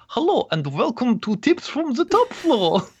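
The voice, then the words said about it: German accent imitating another person. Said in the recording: “try a German accent ... my impression of your new podcast co-host”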